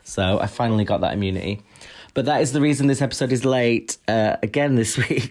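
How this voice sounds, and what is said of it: Unusually deep voice. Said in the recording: “Your voice sounds quite deep, actually. ... I've been smoking.”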